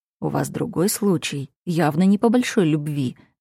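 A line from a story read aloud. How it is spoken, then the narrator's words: Quiet but confident. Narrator (Russian): говорю тихо, но уверенно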